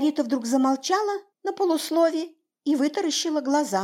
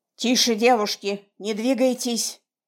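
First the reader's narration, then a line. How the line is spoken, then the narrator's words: Hoarse disguised voice. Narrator (Russian): хриплым измененным голосом сказал Федор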